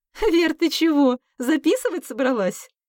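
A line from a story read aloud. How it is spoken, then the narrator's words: Laughing question. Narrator (Russian): Смеясь, поинтересовалась Алла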